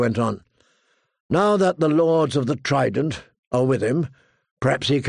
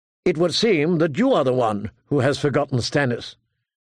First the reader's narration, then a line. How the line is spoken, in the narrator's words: Catelyn said, more sharply than she intended